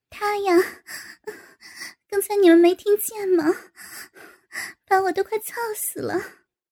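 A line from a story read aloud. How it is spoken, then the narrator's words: Breathless laughing. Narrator (Chinese): 高芳边气喘吁吁边笑道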